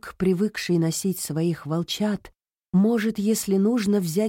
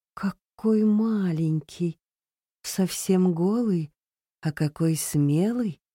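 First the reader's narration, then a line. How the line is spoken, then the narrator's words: Tender motherly voice. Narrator (Russian): ласково сказала мать-волчица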